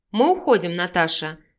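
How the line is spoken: Calm, refined voice. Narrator (Russian): спокойно сообщил интеллигентный Павел

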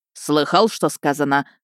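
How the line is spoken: Thunderous bark. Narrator (Russian): рявкнул так, что стекла в шкафу жалобно зазвенели

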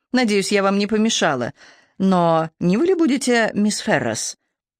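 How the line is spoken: Quiet, agitated, slight foreign accent. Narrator (Russian): Говорила она тихим, взволнованным голосом с едва заметным иностранным акцентом

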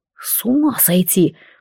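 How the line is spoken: Breathed out. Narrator (Russian): выдохнул он

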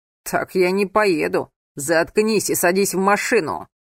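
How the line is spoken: Barked, man. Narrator (Russian): рявкнул мужчина

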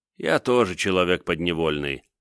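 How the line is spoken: Sighing. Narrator (Russian): вздохнул Александр

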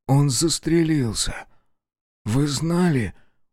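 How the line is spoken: Dejected question. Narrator (Russian): упавшим голосом спросил он

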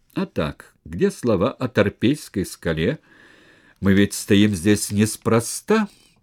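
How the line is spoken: Laughing. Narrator (Russian): Сулла засмеялся

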